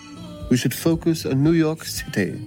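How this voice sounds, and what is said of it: English spoken with British accent. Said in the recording (German): “Süßer Akzent. ... It is too British. ... The German guy with a British accent.”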